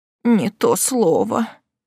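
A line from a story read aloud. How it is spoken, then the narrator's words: Mutter. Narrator (Russian): пробормотала тетушка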